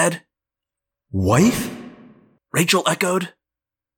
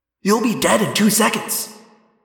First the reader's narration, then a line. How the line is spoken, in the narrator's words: I snapped at the Hork-Bajir after I'd recovered from the shock